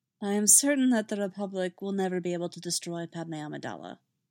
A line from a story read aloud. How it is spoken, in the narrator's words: he said